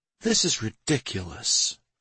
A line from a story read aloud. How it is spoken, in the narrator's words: she muttered in bewilderment